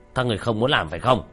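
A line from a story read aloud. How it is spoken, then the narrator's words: Fat man shouting. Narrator (Vietnamese): tên mập quát lên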